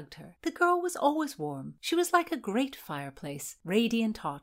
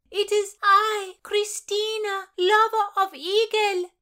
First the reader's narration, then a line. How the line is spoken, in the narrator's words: yelled back Christina over her shoulder